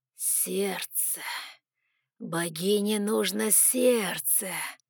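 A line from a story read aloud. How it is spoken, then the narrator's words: Manic creaky voice. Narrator (Russian): Оскалив губы в безумной улыбке, проскрипел Фелину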